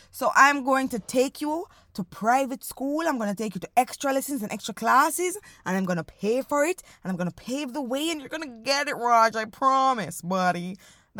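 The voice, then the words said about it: Put-on rich parent voice. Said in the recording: “That's my impersonation of a rich family. I'm sorry. It's not perfect”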